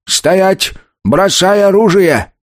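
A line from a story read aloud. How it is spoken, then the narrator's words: Shouting. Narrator (Russian): он закричал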